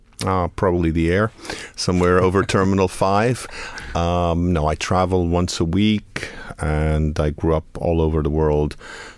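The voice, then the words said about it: Speaks with a noticeable accent. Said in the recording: “anyone listening will hear that you have an accent, which means you're from somewhere”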